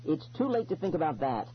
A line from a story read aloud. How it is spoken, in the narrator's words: I said sharply